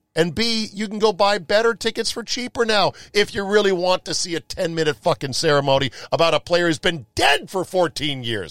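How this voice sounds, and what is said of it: Yelling, loud heated delivery. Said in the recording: “Am I yelling? I'm yelling now, aren't I?”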